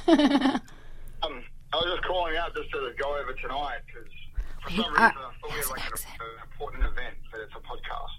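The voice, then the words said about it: Mixed New Zealand-Australian accent. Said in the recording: “he has a sexy accent ... So born in New Zealand, raised in Australia ... So his accent's a little mix of both.”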